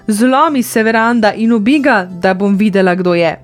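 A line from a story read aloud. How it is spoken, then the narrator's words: Woman shouting. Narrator (Slovenian): Potem je zavpila verandi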